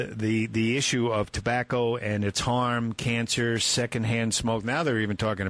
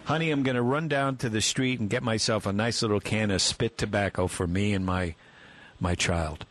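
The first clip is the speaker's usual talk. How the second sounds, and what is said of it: Sarcastic delivery. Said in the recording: “I'm being sarcastic, obviously. Sometimes it's hard to tell.”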